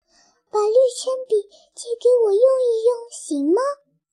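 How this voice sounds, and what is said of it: Quiet, hushed request. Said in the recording (Chinese): “小声对林媛媛说”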